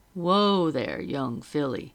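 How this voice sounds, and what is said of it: Deep booming male voice. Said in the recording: “a deep voice boomed”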